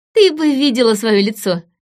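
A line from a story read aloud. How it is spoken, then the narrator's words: Giggling. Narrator (Russian): хихикнула Сильвия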